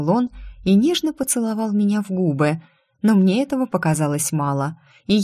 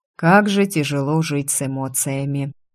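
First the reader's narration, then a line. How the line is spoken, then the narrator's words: Sighing. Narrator (Russian): вздохнул Айр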